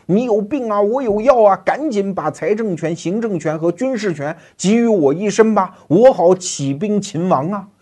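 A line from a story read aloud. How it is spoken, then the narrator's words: Lords shouting. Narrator (Chinese): 地方诸侯总在喊呐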